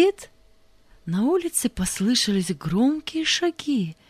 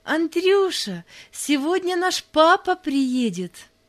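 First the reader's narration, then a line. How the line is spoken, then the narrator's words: Joyful. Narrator (Russian): радостно сказала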